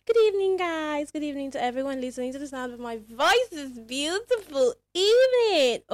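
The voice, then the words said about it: Excited, enthusiastic voice. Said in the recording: “you can literally hear the excitement in my voice”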